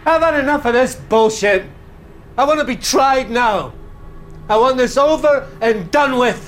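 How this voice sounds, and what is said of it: Angry shouting. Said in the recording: “keep your voice down ... I'll stop shouting”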